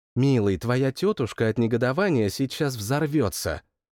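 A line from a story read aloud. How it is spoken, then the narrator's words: Cooing. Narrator (Russian): проворковала Ева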